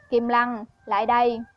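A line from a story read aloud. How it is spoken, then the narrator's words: Cold voice. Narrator (Vietnamese): Giang Trường lạnh lùng thốt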